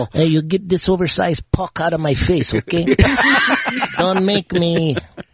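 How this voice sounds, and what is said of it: French-Canadian accent, bit of Sarah Palin. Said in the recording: “kind of French... Canadian... And a little bit of Sarah Palin in it, too”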